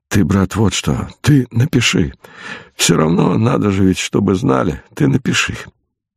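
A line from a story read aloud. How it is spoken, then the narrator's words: Weak voice. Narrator (Russian): когда очнулся, сказал слабым голосом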